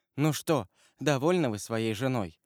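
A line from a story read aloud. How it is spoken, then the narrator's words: Sad young woman. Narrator (Russian): грустно сказала девушка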